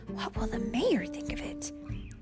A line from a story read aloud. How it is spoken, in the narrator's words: whispered someone else